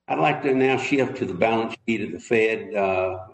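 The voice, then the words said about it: Southern US accent. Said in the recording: “some southern state, though. You can tell by his accent.”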